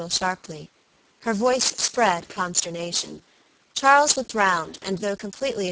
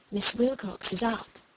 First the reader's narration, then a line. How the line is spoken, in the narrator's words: the child whispered